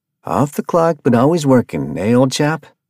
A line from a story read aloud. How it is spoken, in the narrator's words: Ralph asked Arthur, playfully